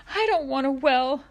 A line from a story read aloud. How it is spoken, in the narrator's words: Ma sobbed